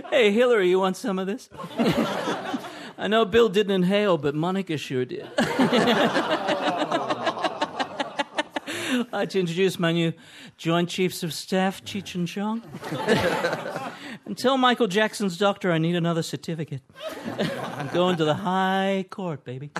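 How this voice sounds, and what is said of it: Impression of Barack Obama. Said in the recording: “What do you think of that accent ... pretty convincing ... You saw Obama.”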